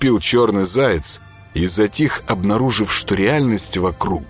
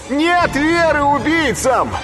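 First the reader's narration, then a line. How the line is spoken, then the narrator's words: Shouted. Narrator (Russian): крикнул им Боженька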